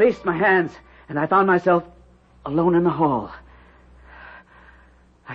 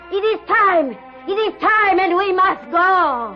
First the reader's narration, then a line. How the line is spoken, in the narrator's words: suddenly, Ilse's mother shouted